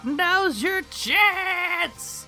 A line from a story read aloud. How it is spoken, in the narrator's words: Goku screams out